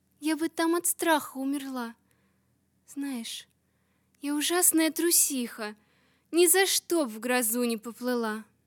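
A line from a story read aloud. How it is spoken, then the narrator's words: Quiet sighing voice. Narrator (Russian): вздохнув, сказала тихо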